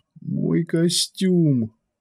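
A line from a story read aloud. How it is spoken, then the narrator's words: Groaned. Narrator (Russian): простонал Биджар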